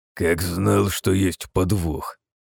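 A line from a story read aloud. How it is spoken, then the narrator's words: Listless mutter through teeth. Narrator (Russian): процедил вяло светлый князь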